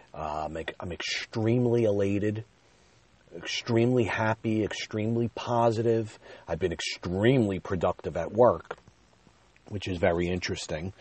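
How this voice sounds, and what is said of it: Rushed, excited speech. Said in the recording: “tell by my voice, I'm trying to slow down a little bit as I speak, but it's almost as if like I'm ready to stumble over my words”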